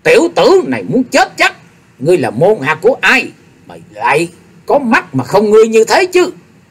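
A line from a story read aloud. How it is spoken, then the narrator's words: Angry shouted question. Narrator (Vietnamese): Độc Tí Phi Ma đã nói giận quát hỏi tiếp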